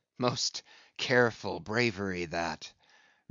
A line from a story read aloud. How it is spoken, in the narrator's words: murmured Ahab